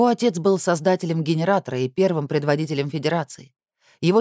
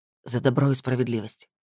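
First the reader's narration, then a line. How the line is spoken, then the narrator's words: Whisper. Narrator (Russian): прошептал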